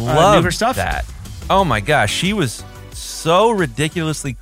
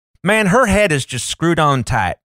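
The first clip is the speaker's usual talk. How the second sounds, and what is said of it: Exaggerated caricature Southern US accent. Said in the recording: “try to do the Southern accent ... you do not get it right ... It's a caricature”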